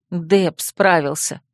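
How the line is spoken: Grumbled. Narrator (Russian): буркнула я

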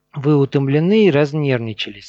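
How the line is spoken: Plain. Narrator (Russian): сказала она

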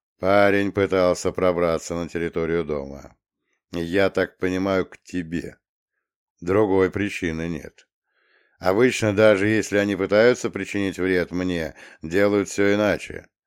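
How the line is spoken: Calm. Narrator (Russian): спокойно пояснил Романовский

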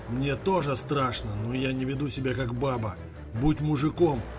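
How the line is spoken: Drunken growl, old man. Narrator (Russian): прорычал дед Андрею в лицо, воняя перегаром

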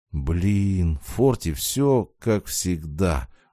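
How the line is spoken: Sighing. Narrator (Russian): вздохнул

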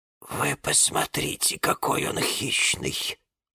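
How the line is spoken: Breathless exclamation. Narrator (Russian): выдохнула Розалия Львовна

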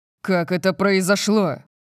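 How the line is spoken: Barked question. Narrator (Russian): Я рявкнул на Дарси

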